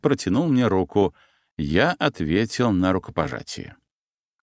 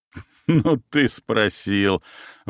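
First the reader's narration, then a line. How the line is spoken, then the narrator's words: Captain's sudden laugh. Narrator (Russian): вдруг рассмеялся капитан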